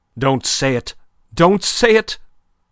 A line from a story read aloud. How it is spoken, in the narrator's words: Madame cried out